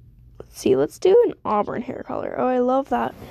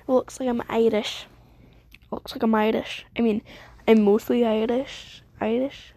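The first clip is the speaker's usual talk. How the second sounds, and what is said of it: Bad put-on Scottish/Irish accent. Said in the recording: “I'm doing a Scottish accent. This is an awful Scottish accent. I mean, Irish accent. I don't know what kind of accent I'm trying to do at this point. It's like that general area, I guess.”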